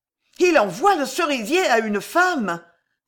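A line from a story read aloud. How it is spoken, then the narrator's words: Exclaimed. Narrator (French): s'écria Esther Marix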